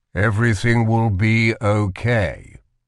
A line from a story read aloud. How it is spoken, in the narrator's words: said the King, his voice similarly hollow